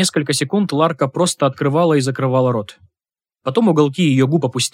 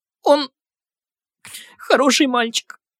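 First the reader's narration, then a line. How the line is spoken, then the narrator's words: Woman sobbing. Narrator (Russian): всхлипнула женщина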